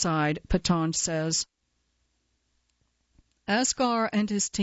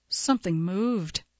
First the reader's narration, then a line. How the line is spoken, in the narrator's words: he said